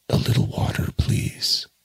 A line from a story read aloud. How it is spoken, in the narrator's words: As soon as he could speak, he murmured